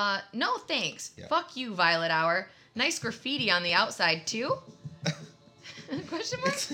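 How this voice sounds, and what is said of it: Usual voice. Nothing is said of it.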